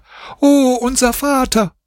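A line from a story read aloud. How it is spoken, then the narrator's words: Children screaming. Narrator (German): schrien die Kinder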